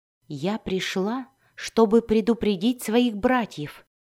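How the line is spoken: Quiet explanation. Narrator (Russian): тихо объяснила она

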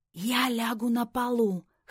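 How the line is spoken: Hoarse whisper. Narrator (Russian): хрипло прошептал Джейми

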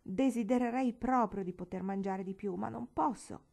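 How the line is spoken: Exclamation. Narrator (Italian): Billy esclamò

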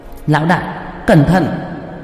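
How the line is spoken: Loud warning call. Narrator (Vietnamese): Qua Qua lớn tiếng kêu lên

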